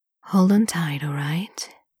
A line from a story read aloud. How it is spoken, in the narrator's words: Lan Chen says quietly